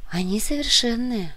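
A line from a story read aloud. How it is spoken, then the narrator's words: Sad. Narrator (Russian): грустно произнесла Инга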